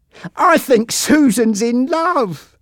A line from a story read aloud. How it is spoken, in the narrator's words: laughed Jack